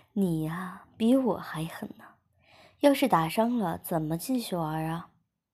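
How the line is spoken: Smiling. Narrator (Chinese): 我笑了笑，便说

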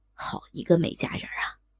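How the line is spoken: Leering admiration. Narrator (Chinese): 高衙内轻薄的赞叹道

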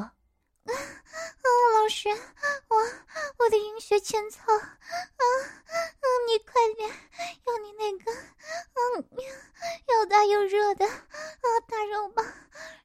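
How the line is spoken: Breathless moaning. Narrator (Chinese): 用力娇喘着说

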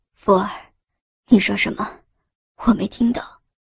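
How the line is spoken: Breathless question. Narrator (Chinese): 陈辅林在紊乱的喘息间开口问道

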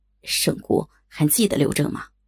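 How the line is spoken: Trembling, flushed voice. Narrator (Chinese): 刘正脸色竟有些发红，颤声道

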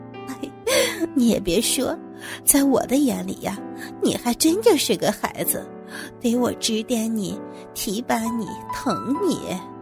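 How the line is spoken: Laughing, amused. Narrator (Chinese): 王总笑着说

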